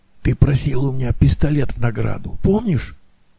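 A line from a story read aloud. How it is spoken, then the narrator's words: Whisper. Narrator (Russian): прошептал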